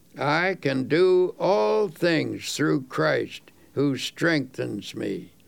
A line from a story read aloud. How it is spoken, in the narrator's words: In a slow, dubious voice, he read